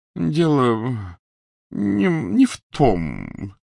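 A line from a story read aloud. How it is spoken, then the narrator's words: Ghost muttering. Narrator (Russian): пробормотало привидение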